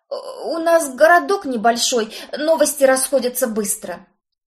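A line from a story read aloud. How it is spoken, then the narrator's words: Groaning. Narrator (Russian): Простонал поверенный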